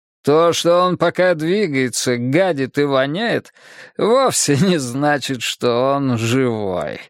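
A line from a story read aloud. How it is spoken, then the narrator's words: Laughing. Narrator (Russian): рассмеялся Елисеев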